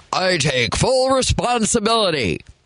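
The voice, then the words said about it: Mock deep male executive voice. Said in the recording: “usually it's a guy, so I'm going to do my guy voice.”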